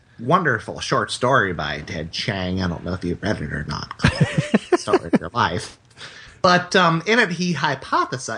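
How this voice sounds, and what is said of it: Imitates another person's voice. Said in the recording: “Terrence McKenna impersonation.”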